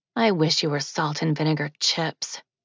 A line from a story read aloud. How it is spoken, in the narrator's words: she whispered at it, a trace of resentment in her voice